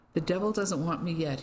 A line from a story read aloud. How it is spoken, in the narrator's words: said, giving a nervous chuckle